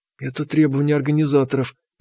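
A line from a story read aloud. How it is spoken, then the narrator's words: Strangled whisper. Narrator (Russian): прошептала она сдавленно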